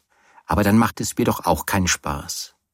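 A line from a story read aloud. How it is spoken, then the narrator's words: Plain. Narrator (German): sagte Teddy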